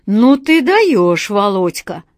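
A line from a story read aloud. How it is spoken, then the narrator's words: Loud laughter over phone. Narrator (Russian): Громко рассмеялся кто-то на другом конце провода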